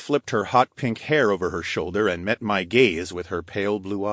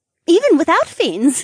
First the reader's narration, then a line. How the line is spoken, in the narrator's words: Aira confirmed with a giggle